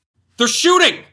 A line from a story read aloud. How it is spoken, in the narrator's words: he shouted